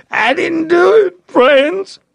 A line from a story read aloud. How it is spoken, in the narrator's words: he sobbed